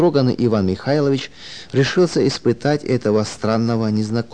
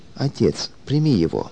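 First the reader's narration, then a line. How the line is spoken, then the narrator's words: Affectionate whisper. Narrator (Russian): ласкаясь к нему, шепнула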